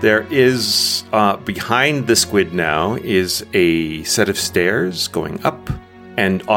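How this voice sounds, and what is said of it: Usual voice. Nothing is said of it.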